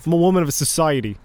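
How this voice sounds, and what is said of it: Weak put-on Boston accent. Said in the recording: “Is that your Boston accent? ... I can only do JFK. And even then, it's not very good.”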